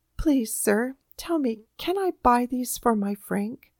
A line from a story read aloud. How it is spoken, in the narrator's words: she said in a timid voice